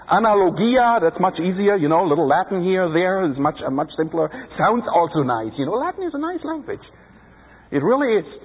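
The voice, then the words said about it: Speaks English with an accent. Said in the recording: “Can you understand my accent? I have a hard time pronouncing these names.”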